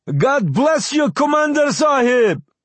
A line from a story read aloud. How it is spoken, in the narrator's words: Several people shouted